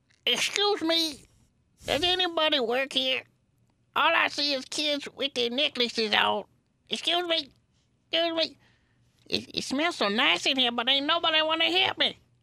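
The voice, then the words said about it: Very old man's voice. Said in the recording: “my impression of a 100-year-old man”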